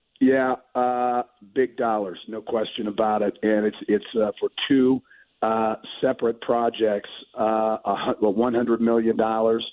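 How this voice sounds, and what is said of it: Congested voice from a cold. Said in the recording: “apologize for my voice. I've had a little head cold here for a while”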